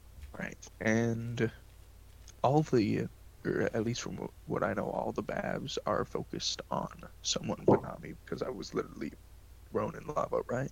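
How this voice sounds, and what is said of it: Gravelly ASMR-style whisper. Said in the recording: “your ASMR voice is too gravelly”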